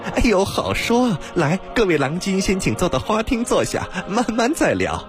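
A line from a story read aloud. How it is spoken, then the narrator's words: Startled, then laughing. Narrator (Chinese): 阿金一愣，随即笑道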